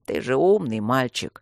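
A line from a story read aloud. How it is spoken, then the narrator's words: Weary hiss. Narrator (Russian): устало прошипел собеседник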